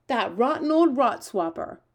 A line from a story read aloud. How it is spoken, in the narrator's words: cried the BFG